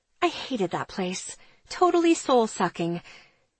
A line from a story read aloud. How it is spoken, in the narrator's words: she mutters